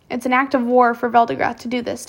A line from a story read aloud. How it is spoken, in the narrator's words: Tobias said